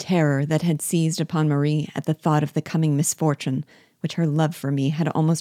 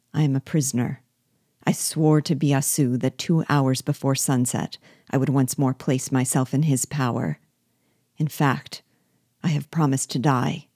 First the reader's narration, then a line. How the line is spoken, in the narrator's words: towards Bug Jargal's ear and said, in a low voice